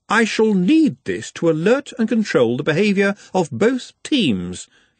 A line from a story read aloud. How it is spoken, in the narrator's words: he said haughtily